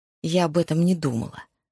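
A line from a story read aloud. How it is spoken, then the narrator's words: Through gritted teeth. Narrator (Russian): сквозь зубы процедила Энни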